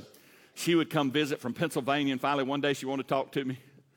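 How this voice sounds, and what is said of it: Southern US drawl. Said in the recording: “I got south in the mouth ... My diction was slow and drawled out, you know, southern.”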